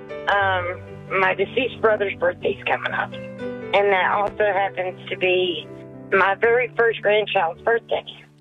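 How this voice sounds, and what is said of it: Sad-sounding voice. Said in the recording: “you sound kind of sad”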